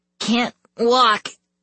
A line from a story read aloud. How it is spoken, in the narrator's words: Chang groaned